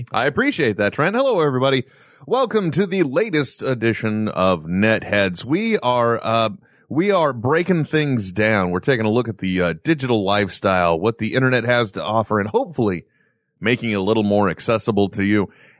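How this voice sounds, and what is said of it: Fake radio announcer voice. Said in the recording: “my fake and busted radio voice ... I think it's sexy”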